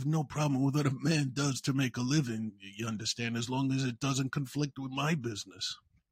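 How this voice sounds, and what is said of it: Poor Marlon Brando impression. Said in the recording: “that was a horrible Brando impersonation”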